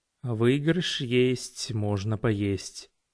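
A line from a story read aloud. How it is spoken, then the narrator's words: Muttering. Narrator (Russian): пробормотал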